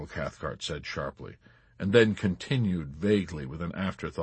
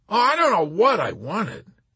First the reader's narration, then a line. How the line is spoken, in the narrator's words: Colonel Cathcart cried out in exasperation